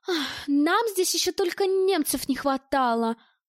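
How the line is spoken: Woman's sigh. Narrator (Russian): вздохнула дамочка

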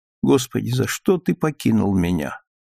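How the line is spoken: Quiet undertone. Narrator (Russian): повторяла вполголоса

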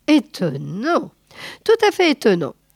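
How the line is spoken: Lieutenant sneering. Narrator (French): ricana le lieutenant

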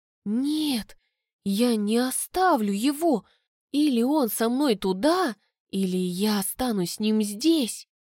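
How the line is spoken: Horrified whisper. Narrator (Russian): в ужасе прошептала

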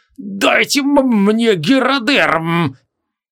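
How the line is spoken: Hysterical shriek. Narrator (Russian): Истошно завизжал Лакластарос

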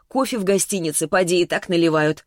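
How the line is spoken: Wry snort. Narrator (Russian): хмыкнула я

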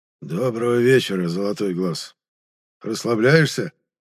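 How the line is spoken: Husky voice from behind. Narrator (Russian): прозвучал за спиной хрипловатый голос

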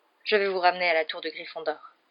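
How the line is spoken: Grave tone. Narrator (French): dit le professeur McGonagall d'un ton grave

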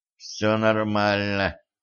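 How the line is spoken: Through gritted teeth. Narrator (Russian): процедил Ланс

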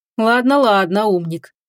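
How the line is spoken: Grumbling. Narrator (Russian): проворчал он

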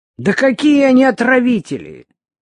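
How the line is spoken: Deep exclamation. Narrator (Russian): глубоко воскликнула Любка

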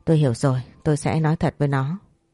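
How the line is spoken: Sighing man. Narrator (Vietnamese): Ông tổng thở dài rồi nói

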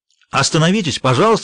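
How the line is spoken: Shouting. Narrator (Russian): закричал полицейский

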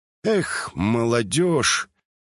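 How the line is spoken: Sad smiling doctor. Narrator (Russian): Грустно улыбнулся врач

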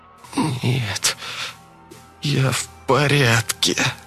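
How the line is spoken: Strained, forced. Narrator (Russian): выдавила она через силу

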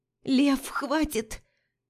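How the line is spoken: Hoarse shout. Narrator (Russian): выкрикиваю сипло

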